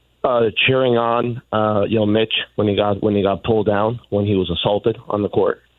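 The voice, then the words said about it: Raspy, strained voice. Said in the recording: “As you can tell from my raspy voice, I was at the game last night.”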